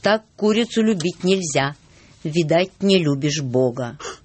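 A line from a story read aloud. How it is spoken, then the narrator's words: Stern. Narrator (Russian): молвил строго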